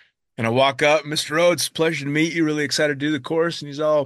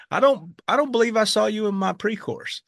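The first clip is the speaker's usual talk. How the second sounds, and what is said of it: Thick Southern accent. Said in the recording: “very Southern guy with this very thick accent.”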